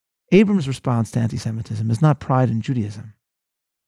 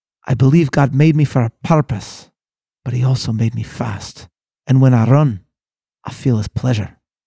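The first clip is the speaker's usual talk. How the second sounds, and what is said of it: Put-on Scottish accent. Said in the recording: “in my amazing Scottish accent”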